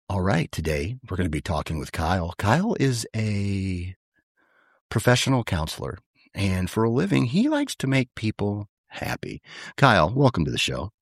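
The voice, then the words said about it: Low, relaxed, low-energy radio-host voice. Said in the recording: “my best NPR impersonation ... Low, relaxed, just like no energy”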